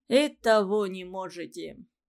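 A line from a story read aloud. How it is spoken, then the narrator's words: Sarcastic. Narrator (Russian): язвительно сказал Скоробогатов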